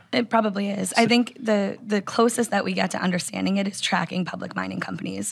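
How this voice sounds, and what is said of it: Raspy, hoarse voice. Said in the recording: “With my raspy voice.”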